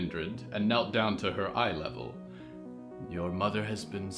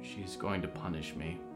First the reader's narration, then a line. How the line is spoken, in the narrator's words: Johanna whispered